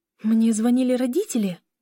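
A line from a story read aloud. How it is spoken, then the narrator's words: Anxious question. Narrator (Russian): Взволнованно спросила Лиля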